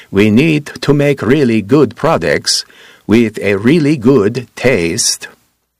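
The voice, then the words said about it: Put-on Scandinavian accent. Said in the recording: “Scandinavian accent,”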